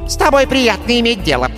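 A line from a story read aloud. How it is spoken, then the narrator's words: Squeaky. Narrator (Russian): пропищал маг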